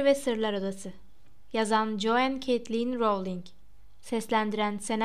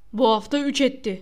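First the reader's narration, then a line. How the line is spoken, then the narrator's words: Shouting. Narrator (Turkish): diye bağırdı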